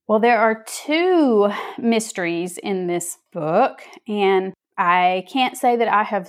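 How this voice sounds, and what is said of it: Southern American accent. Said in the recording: “I hope you can understand this Southern accent.”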